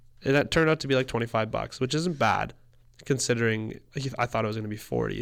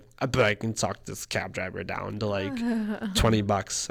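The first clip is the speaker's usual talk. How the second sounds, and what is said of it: Imitates another person's voice. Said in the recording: “your Kate impression”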